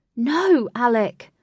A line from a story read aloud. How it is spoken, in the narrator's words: shouted Katie